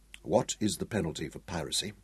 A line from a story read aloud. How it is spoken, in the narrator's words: he asked Rashid quietly, still holding his rage in check